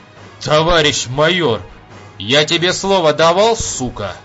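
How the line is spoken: Rough interruption. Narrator (Russian): грубо прервал его Васильцов

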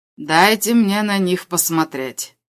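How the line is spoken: Calm reply. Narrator (Russian): оператор спокойно ответил

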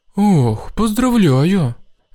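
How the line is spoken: Joyful. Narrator (Russian): Радостно сказал я

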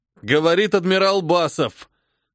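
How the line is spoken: Strained full-force bellow. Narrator (Russian): гаркнуть в полную силу, несмотря на боль в груди

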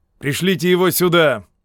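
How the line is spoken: Shouting colonel. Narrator (Russian): крикнул полковник

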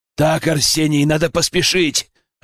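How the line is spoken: Growl. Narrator (Russian): рыкнул я

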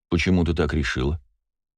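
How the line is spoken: Calm question. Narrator (Russian): спокойно поинтересовался

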